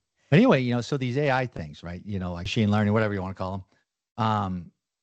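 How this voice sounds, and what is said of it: Missouri hillbilly twang. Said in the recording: “they even can understand hillbilly ... here in Missouri, we talk a certain twang.”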